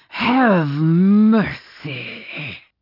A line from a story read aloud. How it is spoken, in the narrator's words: he groaned